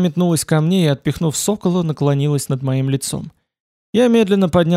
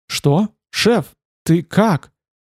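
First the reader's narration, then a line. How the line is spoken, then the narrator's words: Trembling voice. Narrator (Russian): А Валентайн попросил дрожащим голосом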